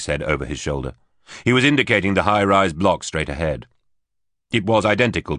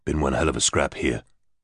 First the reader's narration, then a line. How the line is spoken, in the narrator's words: muttered